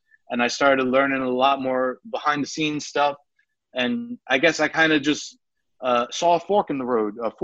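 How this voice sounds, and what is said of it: New York accent. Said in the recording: “my New York accent's coming out there”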